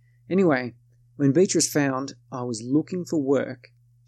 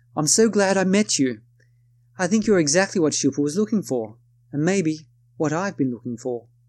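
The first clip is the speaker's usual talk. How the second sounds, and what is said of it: Attempted put-on accent. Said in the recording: “excuse my attempt at an accent”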